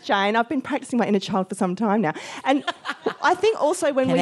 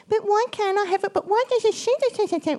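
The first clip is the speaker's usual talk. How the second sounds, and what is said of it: Whiny little girl voice. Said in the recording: “doing that little girl voice”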